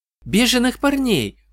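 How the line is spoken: Exclamation. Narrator (Russian): воскликнула Сьюзи

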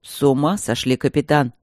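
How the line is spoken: Angry, curt. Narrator (Russian): сердито бросил Стрелковский

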